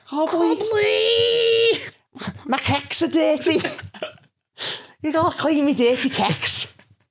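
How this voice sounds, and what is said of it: Put-on Scouse accent, childlike. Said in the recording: “a baby that screams at me in a Scouse accent ... a tiny Scouse version of you”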